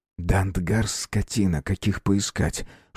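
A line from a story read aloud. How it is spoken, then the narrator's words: Whisper. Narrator (Russian): шепнул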